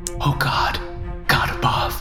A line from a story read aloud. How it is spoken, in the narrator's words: I whispered